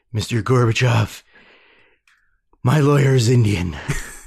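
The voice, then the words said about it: Ronald Reagan impression, sounds like Clint Eastwood. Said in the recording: “I was trying to work on a Ronald Reagan impersonation... That kind of sounded like Clint Eastwood.”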